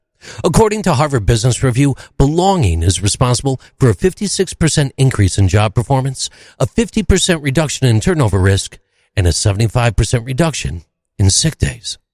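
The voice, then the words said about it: Polished podcast announcer voice. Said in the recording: “I love the podcast voice there.”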